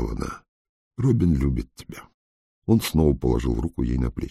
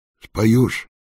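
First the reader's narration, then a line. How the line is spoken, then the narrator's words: Plain. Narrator (Russian): спросил он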